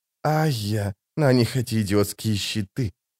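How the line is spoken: Hissed close to ear. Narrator (Russian): прошипел Фримен над ухом Хавата

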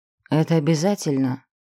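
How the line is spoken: Very sad sigh. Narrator (Russian): Тиан вздохнул весьма печально

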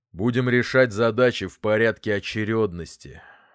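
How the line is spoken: Father muttering. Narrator (Russian): пробурчал отец

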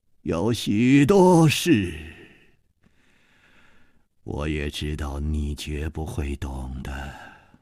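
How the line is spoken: Calm, sighing. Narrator (Chinese): 李玉涵也不生气，竟又叹息了一声

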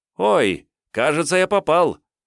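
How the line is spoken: Joyful yell, older boy. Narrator (Russian): радостно завопил старший

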